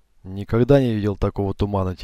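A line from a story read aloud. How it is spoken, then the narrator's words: Quiet. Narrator (Russian): тихо сказал я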